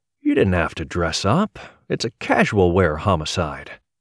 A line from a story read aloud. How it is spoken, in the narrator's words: drawling